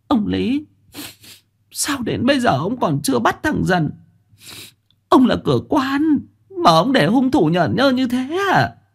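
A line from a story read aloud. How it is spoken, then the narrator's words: Sniffling, tearful. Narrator (Vietnamese): miệng sụt sùi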